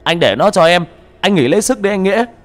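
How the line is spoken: Man yelling. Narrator (Vietnamese): Tên Khang gào lên một tiếng

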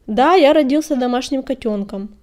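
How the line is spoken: Sharp, composed. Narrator (Russian): резко ответил Огнегриф, справившись с волнением

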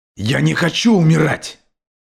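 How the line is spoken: Screaming. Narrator (Russian): завопил Герстон

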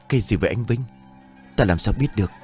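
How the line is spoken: Frightened. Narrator (Vietnamese): Báu lại càng sợ

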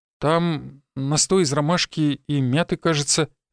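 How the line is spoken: Stammering answer. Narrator (Russian): запинаясь, ответил Никита

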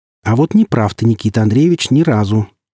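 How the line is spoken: Calm. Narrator (Russian): спокойно ответил я

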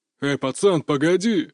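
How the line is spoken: Growl from behind. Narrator (Russian): рыкнул кто-то позади меня

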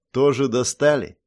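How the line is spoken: Bored. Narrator (Russian): скучающим тоном поинтересовался Санта

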